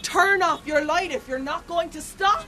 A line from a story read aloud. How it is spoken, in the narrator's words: And I shout after they've gone